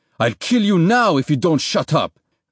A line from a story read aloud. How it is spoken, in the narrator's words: the militiaman snapped